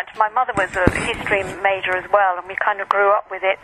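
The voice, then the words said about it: British accent. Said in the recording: “You have a beautiful accent. ... I've always loved the British accent, and it's just something that, it's almost soothing to me.”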